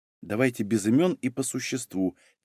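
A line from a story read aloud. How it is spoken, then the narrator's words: Quiet. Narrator (Russian): тихо проговорила Юля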